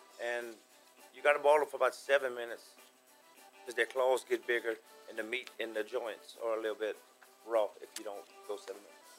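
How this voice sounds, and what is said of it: Lovely regional accent. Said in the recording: “his lovely accent”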